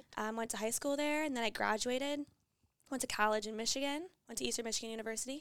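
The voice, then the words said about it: Chicago-area Midwestern accent. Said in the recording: “I'm from, like, a small town in Illinois, like, right outside Chicago, the northwest suburbs. ... I don't know if you heard that accent. You know, I get that a lot here.”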